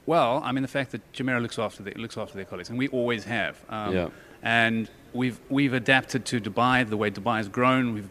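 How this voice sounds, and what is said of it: South African accent. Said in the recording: “We can hear the South African accent.”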